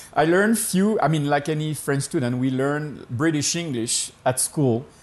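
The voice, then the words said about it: French-accented English. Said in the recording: “You said I have an accent”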